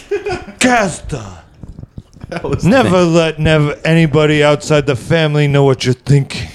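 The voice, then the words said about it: Imitates another person's voice. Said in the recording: “doing an impression... Okay, it's not bad... 6 out of 10”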